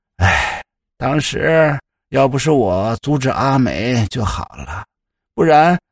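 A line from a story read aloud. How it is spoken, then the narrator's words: Sighing, regretful. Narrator (Chinese): 夏母却叹了一声，似乎有些惋惜的说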